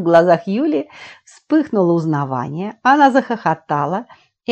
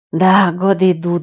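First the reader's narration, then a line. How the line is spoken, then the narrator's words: Sighing. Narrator (Russian): вздохнула Юля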